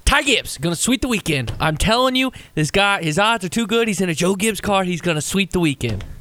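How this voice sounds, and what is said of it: Imitates another person's voice. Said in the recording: “Do you need me to do the impersonation again?”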